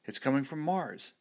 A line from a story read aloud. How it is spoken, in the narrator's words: exclaimed one of the scientists